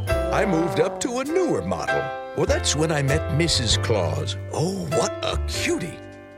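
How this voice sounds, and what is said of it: Older-sounding character voice. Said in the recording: “he's doing a voice ... He's doing like an older voice.”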